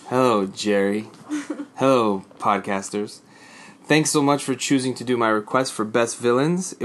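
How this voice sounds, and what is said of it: Impression of Newman sitcom character voice. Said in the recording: “I got to try to do an impression here ... trying to do a Newman voice, I'm not really good at it.”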